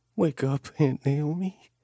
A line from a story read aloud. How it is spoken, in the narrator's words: she whispered